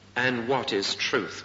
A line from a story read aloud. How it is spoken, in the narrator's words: Pilate asked